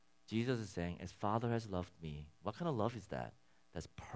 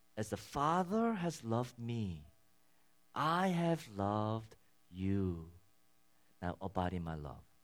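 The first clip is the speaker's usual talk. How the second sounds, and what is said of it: Slow, deliberate reading. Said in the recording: “read that slowly.”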